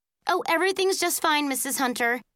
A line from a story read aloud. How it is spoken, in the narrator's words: Erica said quickly